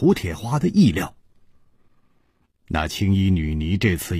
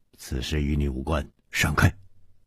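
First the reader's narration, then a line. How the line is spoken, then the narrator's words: Stern, harsh. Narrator (Chinese): 蒙面客厉声说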